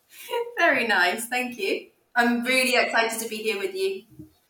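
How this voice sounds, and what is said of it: British accent. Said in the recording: “drooling over your accent ... you're in the UK”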